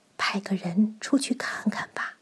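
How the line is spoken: Softly. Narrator (Chinese): 蚁后小声说

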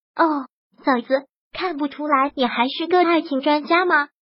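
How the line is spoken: Musing exclamation. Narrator (Chinese): 萧小言感叹似的说道

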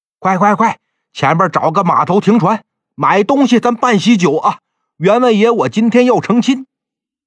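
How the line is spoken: Hurried shout. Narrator (Chinese): 卞福就赶紧喊

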